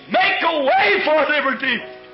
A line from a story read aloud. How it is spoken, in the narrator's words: He screamed